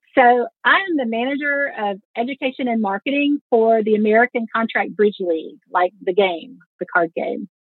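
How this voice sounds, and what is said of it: Slight Southern US accent. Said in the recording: “It's nice to hear a little Southern accent. ... Yeah, there's a little in there.”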